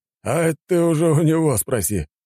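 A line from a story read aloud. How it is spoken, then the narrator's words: Smirking man. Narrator (Russian): хмыкнул мужик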